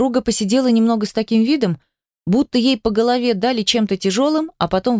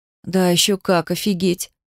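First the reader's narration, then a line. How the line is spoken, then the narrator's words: Sighing. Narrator (Russian): вздохнула я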